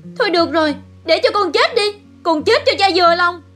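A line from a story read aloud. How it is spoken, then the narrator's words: Tormented, desperate scream. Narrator (Vietnamese): Mộng Bình vẫn bị hành hạ, chịu hết nổi, nó hét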